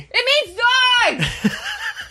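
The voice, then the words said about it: Yelling loudly. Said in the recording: “Why are you yelling at me?”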